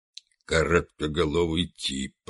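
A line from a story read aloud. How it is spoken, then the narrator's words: Muttered. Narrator (Russian): пробормотал он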